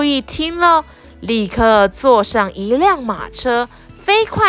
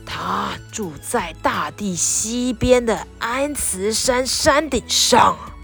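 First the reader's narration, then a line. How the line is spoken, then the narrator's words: Old man, slow. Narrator (Chinese): 白胡子老先生慢吞吞地说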